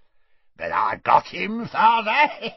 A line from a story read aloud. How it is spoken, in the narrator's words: cackled Morfin